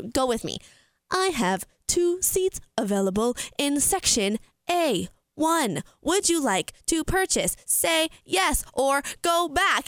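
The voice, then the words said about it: Robotic automated-machine voice. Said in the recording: “mimic this robot voice”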